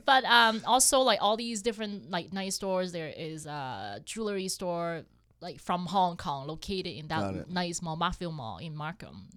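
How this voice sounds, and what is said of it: Speaks English with an accent. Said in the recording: “sorry with my accent.”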